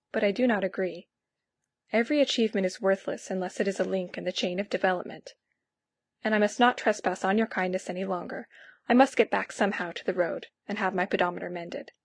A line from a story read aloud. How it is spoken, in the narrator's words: I said quietly